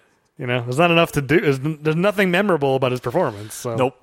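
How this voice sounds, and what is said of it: Usual voice. Nothing is said of it.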